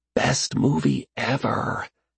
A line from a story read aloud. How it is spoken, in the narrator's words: he whispered to Katie